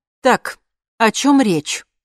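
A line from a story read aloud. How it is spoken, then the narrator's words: Angry question. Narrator (Russian): зло спросила Лина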